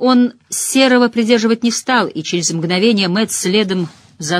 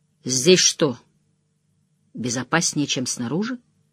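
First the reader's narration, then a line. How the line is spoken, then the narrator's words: Quiet. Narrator (Russian): Ранд тихо сказал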